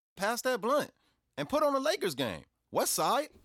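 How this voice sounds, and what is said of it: Put-on American L.A. accent. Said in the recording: “the American accent ... that L.A. accent like that? You know, that hard. ... you sound just like my son's barber.”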